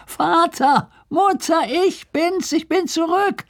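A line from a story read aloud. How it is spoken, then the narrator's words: Calling from afar. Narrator (German): rief er von Weitem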